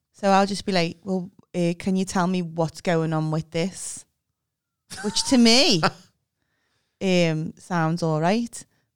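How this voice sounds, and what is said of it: Grating, abrupt-sounding accent. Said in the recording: “it can be quite a grating accent and I can sound quite abrupt”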